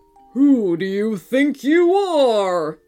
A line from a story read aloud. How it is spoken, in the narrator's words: it bellowed at the two mermaids